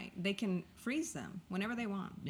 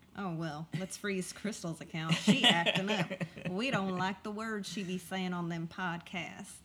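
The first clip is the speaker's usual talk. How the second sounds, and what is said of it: Put-on Southern accent. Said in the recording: “it's not the South doing it ... why did I do that accent?”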